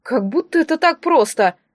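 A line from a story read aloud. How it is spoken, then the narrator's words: Offended mumbling. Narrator (Russian): обиженно пробубнил друг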